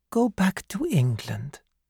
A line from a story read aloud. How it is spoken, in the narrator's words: said Fiedler gently